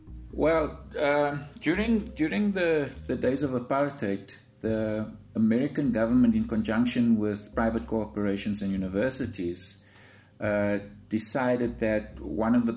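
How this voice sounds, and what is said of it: South African accent. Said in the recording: “I'm guessing from the accent that you're a native of South Africa”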